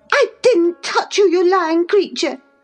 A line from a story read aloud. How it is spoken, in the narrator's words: cried she, her ears red with rage